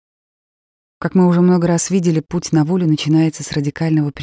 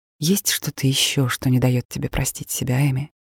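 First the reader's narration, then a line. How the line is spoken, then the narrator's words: Soft. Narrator (Russian): Я мягко продолжила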